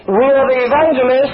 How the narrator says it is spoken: shouted

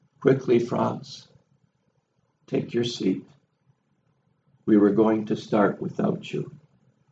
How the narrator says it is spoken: Hamel calmly looked at him and said

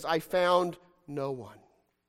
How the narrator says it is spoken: sadly ... he says

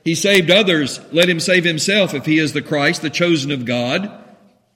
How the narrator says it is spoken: the rulers with them, sneering, said

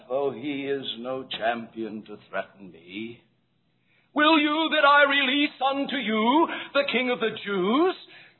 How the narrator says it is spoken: Almost sneering under his breath

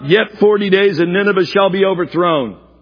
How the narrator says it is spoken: Scream out, call out

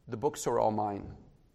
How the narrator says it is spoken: in a barely audible voice, he said

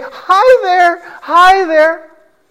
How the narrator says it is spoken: But Eric continued to laugh and say

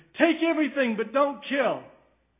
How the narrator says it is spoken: Goforth cried to them

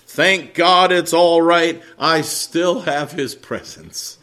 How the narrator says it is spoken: Wesley joyfully exclaiming

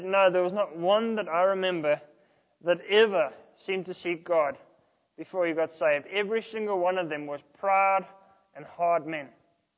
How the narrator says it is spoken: he shook his head sadly and he said

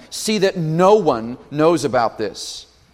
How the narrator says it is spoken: Jesus sternly warned them

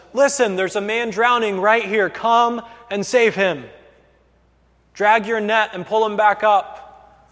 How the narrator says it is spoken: he yells out to them and he says

